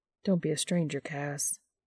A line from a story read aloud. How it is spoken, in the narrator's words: Dean murmurs